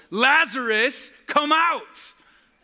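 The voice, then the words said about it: Preacher voice. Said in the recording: “That was my preacher voice.”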